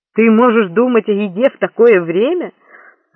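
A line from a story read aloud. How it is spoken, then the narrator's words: Snorting. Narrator (Russian): Лоренцо фыркнул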